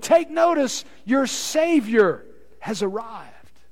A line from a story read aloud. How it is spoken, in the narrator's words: They may have cried out as well